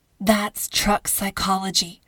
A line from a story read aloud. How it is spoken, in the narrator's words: Carmen murmured